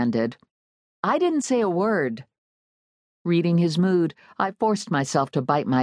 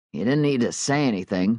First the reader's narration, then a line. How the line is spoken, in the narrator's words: Mark grumbled